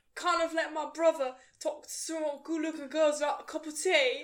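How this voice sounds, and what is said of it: Imitates another person's accent. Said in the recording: “it's not his accent ... I will try and impersonate it right now”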